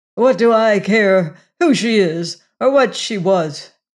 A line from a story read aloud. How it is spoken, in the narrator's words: he cried passionately, and he knew it was not his old self speaking